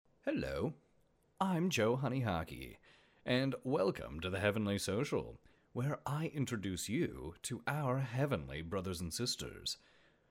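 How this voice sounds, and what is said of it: Hoarse, deeper than usual voice. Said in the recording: “my voice is a little hoarse ... it's a little bit deeper than it normally is”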